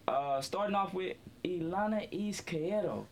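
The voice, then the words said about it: Spanish-accented pronunciation of a name. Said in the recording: “That was a nice little Mexican accent. ... Well, it's actually Colombian.”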